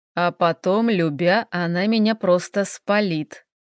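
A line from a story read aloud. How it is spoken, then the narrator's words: Muttered. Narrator (Russian): пробормотал Хелл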